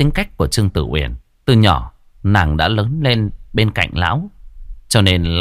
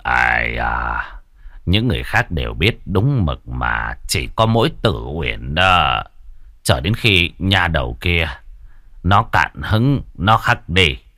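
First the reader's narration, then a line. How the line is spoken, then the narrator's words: Low voice. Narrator (Vietnamese): Trương Bôn nhỏ giọng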